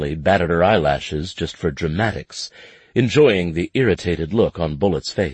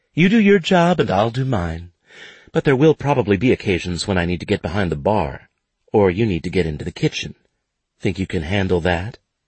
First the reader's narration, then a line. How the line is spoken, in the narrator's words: in her sweetest voice said